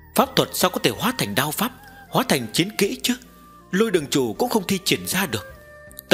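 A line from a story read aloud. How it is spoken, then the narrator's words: Young girl muttering. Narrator (Vietnamese): Một cô bé lẩm bẩm nói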